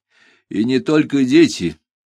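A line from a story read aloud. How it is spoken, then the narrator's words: Sighing. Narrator (Russian): вздохнул я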